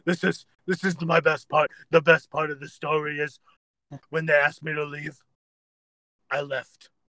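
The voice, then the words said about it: Impression sounding like Cookie Monster. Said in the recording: “Are you Cookie Monster? ... that is an impersonation I haven't worked on in quite a while.”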